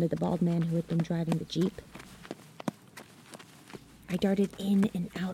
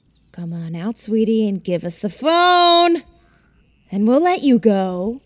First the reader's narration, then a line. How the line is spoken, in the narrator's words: shouted one man as the other laughed coldly